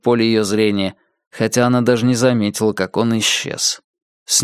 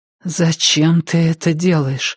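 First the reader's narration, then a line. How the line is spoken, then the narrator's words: Strained. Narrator (Russian): наконец выдавила она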